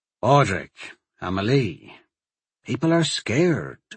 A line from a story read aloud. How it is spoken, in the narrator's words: the sheriff said quietly